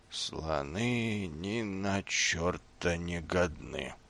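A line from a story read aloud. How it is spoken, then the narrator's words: Sleepy snoring mutter. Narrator (Russian): пробормотал он, похрапывая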